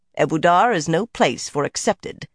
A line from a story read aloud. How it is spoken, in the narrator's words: Carlinia said coldly